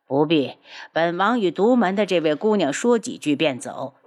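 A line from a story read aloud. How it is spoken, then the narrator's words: Smiling. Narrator (Chinese): 无双笑着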